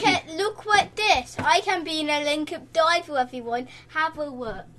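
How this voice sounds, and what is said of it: Silly put-on voice. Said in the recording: “silly voice”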